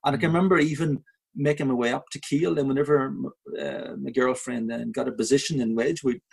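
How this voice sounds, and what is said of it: Belfast Irish accent. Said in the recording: “there I was with this Belfast accent ... an Irish accent”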